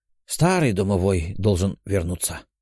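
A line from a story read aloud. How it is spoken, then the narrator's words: Sad. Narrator (Russian): грустно произнес Платон Тимофеевич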